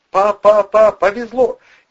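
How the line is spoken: Ringing shout. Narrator (Russian): не менее звонко закричал армеец

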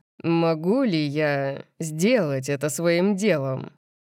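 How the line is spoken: Purring. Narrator (Russian): Он замурлыкал

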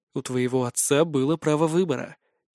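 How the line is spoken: Quiet reply. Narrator (Russian): тихо отозвался я

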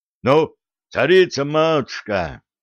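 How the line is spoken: Commander's protesting roar. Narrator (Russian): Протестующе взревел стрелецкий воевода

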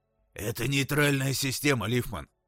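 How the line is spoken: Hoarse rasp. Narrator (Russian): прохрипел он

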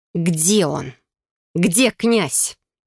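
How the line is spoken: Furious ringing growl. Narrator (Russian): прорычал звенящим от бешенства голосом

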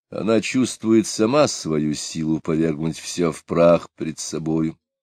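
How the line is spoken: Gloomy speech. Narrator (Russian): сказал Потемкин, мрачно смотря ей вслед

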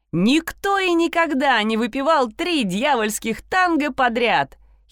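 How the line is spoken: Giggling girl. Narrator (Russian): хихикнула девушка рядом с нами

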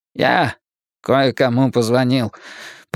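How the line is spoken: Dejected tone. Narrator (Russian): подавленным тоном произнес он

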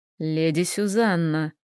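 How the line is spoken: Purring dragon. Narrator (Russian): мурлыкал дракон

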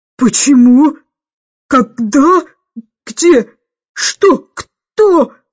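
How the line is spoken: Hoarse rasp. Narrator (Russian): прохрипела

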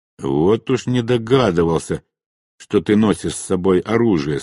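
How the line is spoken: Plain. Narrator (Russian): сказал я

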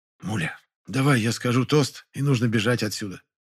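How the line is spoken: Whisper. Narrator (Russian): шепнула мне Фаина Георгиевна

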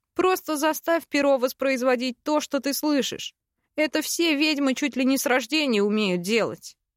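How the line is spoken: Scoffing snort. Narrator (Russian): Я фыркнула

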